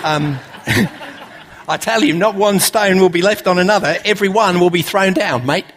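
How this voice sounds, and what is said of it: Put-on Australian accent. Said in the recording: “It's got to be an Australian accent, hasn't it? ... I really wasn't planning to do that in an Australian accent, but it just came out”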